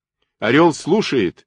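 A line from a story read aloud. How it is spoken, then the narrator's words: Shouted into phone. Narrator (Russian): крикнул Ковалев в трубку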